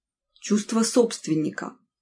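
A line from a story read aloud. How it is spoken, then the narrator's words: Gloomy. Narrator (Russian): мрачно уточнила Эмма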